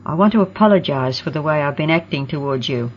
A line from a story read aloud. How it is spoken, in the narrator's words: she said in a low voice